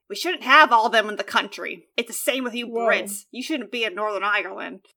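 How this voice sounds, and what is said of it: Weak attempt at Australian accent. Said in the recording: “I don't have an Australian accent, if that was not clear.”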